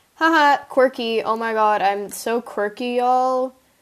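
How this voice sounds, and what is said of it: Sarcastic delivery. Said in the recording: “That was sarcasm. ... Please understand my sarcasm.”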